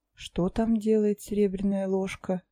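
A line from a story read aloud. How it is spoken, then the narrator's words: Lazy, musing. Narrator (Russian): лениво попыталась вспомнить я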